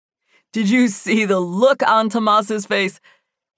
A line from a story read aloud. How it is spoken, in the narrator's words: He laughed